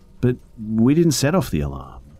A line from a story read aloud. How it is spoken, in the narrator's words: I said, stammering, and I actually started to cry